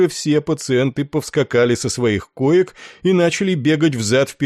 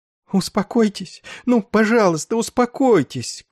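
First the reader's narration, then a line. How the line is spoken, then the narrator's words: Sobbing desperate pleading. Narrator (Russian): крупно сотрясаясь от рыданий, умоляла она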